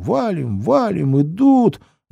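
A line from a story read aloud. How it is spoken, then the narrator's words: Shrill strange squeal. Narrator (Russian): Взвизгнул он не своим голосом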